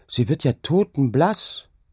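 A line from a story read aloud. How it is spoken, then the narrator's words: Calling out. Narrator (German): rief sie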